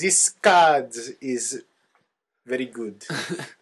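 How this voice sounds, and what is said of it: Put-on French accent. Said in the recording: “I don't know what accent that was. ... That might be France. ... I think that is France.”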